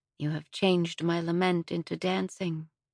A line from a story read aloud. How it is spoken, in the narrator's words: I whispered